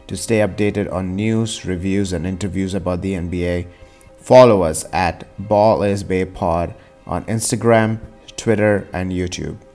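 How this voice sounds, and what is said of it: Indian English accent. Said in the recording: “the largest NBA podcast in an Indian accent”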